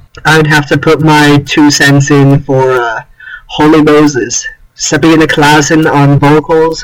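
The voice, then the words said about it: Midwestern American accent. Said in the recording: “A nice Midwest accent.”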